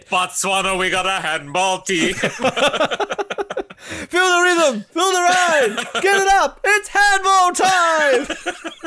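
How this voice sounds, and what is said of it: Put-on Jamaican-sounding accent. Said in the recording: “we have to put on our best Botswana accent for it ... on us Jamaican ... Botswana accent?”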